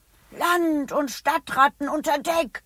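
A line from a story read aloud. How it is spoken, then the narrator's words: Calling. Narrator (German): ruft Bertha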